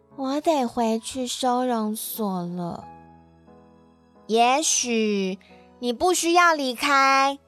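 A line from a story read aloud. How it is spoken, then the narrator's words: Quiet, soft. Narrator (Chinese): 他小声地对路易说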